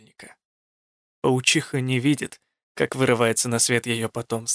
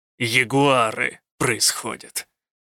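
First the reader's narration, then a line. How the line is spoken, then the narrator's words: Growled. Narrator (Russian): прорычал он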